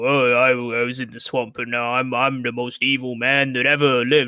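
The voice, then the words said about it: Deep, spooky Braun Strowman impression. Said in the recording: “Really good impression.”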